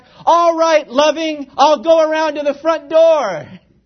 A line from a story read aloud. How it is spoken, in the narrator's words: he shouted back